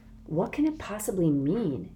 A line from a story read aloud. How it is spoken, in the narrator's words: Kate whispered